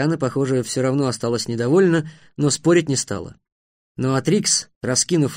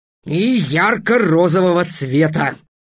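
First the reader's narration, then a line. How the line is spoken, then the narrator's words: Barked. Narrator (Russian): рявкнул Трикс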